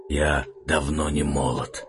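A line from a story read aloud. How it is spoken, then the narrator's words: Hoarse reply. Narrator (Russian): хрипло отозвался Арман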